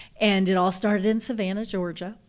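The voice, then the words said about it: Slight Southern US twang. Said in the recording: “notice that little Southern twang in there ... that's because I'm a Southerner. It just kind of comes out. Can't say Savannah with a Michigan accent.”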